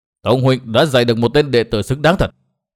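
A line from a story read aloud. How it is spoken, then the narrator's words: Harsh, angry. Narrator (Vietnamese): Trác Tử Thanh thấy Trác Ngọc xanh mặt, lão ta nói gay gắt với Tông Đào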